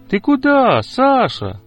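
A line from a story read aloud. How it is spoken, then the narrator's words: Shout after someone. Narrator (Russian): крикнул ему вслед Петя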